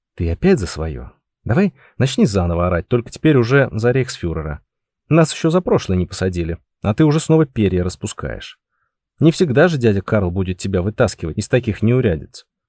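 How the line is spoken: Hissed. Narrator (Russian): прошипел Георг

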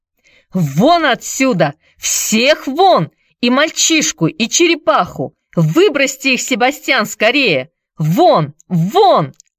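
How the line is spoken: Shrieking. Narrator (Russian): вопила она

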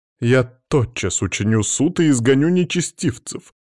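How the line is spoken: Indignant priest exclaiming. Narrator (Russian): воскликнул прозревший и оттого возмущенный священник

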